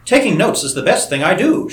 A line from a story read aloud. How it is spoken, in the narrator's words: she cried